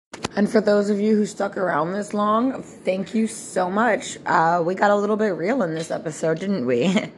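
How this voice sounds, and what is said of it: Strained, failing voice. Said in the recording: “I'm clearly losing my voice, so please forgive me for the way that I sound.”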